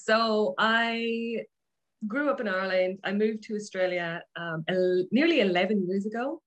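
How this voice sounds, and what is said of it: Irish accent mixed with Australian. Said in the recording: “So that's why my accent is probably a bit weird.”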